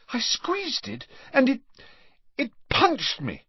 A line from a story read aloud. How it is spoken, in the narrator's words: she gasped